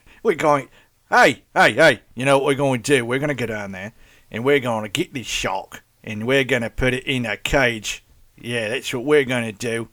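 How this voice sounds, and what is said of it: Poor put-on Australian accent. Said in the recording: “that's not how do you, Australian accent”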